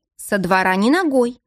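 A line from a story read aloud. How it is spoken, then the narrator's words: Stern. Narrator (Russian): строго сказала Надежда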